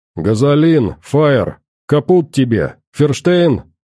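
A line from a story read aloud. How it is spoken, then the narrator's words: Deliberately loud. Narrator (Russian): нарочито громко сказал он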